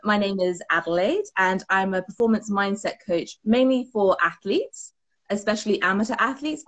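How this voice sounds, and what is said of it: British accent. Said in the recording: “Love that accent... I am from the UK from my accent”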